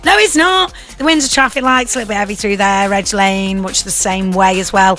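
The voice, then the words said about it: Imitates another person's voice. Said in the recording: “will you do your impression of me? ... You have to do the voice then? ... I was just being silly.”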